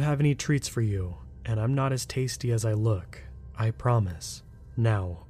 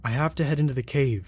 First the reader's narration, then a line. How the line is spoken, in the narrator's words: Jack cried